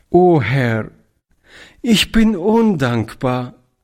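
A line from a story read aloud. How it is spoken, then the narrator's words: Tearful, choked cry. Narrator (German): rief Toni mit tränenerstickter Stimme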